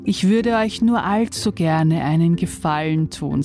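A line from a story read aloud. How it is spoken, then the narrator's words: Plain. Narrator (German): sagte St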